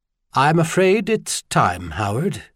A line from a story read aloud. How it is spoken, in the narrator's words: said in a remarkably calm voice